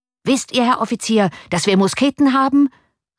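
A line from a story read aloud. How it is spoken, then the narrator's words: Furious shout. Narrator (German): rief voller Wut der Kommandant der Bürger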